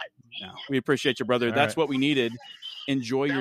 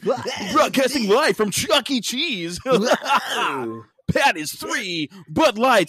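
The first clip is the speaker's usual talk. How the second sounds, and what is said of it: Announcer-style radio voice. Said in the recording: “You guys like how I turned my radio voice”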